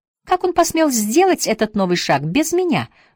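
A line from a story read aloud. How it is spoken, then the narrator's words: Exclaimed. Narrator (Russian): воскликнул Джек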